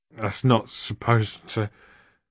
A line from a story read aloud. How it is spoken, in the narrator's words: In a slurred voice, he said